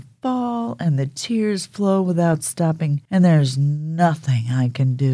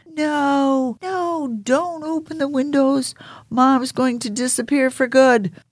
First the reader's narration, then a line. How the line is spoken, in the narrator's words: shout and I cry and scream